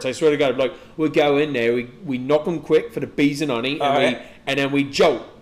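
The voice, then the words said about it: Put-on Cockney accent. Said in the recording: “I did practice since we talked about that... a lot of like the Cockney, the rhyming”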